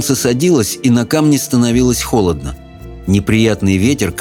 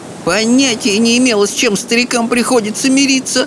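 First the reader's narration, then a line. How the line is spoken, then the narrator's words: Groaning while climbing. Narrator (Russian): простонала Софи, взбираясь на холм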